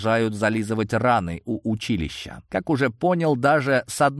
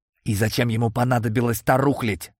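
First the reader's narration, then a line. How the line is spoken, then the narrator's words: Strained voice mid-battle. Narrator (Russian): голос какого-то пилота, ведущего бой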